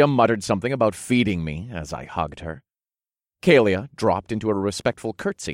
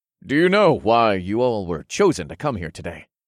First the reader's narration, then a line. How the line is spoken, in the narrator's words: I asked in a deep baritone voice